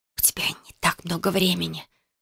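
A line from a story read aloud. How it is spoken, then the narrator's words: Quick female whisper. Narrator (Russian): быстро прошептала она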